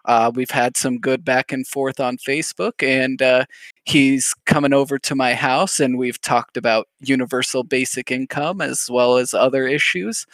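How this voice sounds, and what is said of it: Radio announcer voice. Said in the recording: “I gotta get out of my radio voice.”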